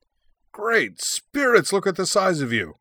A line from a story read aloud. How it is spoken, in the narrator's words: he cried